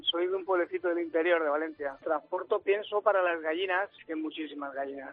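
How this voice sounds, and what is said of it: Valencian Spanish accent. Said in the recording (Spanish): “¿Tienes acento valenciano? ... Sí.”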